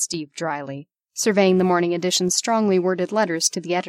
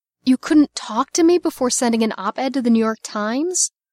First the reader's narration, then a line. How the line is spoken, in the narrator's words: Ava moaned